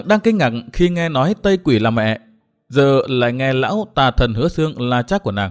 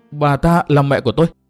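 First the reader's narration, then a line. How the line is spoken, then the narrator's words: Shocked trembling question. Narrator (Vietnamese): Ngọc Hà run rẩy, mặt cắt không còn tí máu, hỏi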